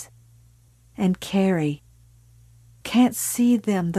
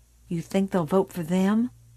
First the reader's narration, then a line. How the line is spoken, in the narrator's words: Billy said softly